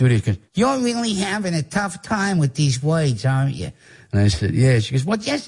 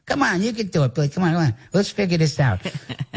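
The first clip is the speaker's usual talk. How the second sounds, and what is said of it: Imitates another person's voice. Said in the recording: “That's a real good impression of her ... her accent is not as pronounced”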